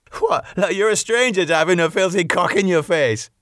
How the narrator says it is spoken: Kevin laughed

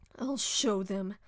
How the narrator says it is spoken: she thought angrily

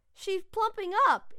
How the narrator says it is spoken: exclaimed Brad

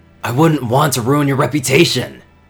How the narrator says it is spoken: the sudden venom

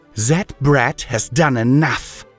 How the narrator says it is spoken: she hissed through her teeth

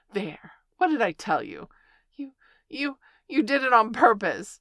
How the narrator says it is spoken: sputtered Piglet as soon as he could speak again

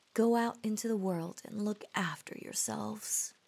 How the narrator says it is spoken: said the queen

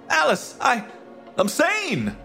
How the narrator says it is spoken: I cried

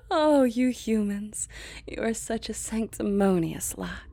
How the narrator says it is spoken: chuckled darkly

